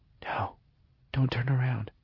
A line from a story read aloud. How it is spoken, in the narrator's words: she said, lowering her voice to a whisper